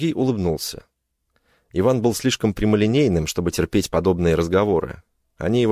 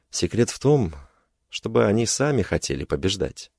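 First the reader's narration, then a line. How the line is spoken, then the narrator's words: Calm reply. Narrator (Russian): спокойно ответил Сергей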